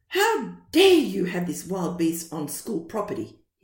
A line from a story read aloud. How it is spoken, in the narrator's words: exclaimed